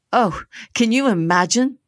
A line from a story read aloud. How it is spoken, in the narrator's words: the girls giggled, inventing a bashfulness that did not come naturally